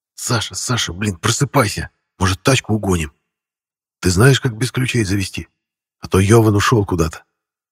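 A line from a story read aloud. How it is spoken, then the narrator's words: Loud urgent whisper. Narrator (Russian): Громко над головой шептал Максим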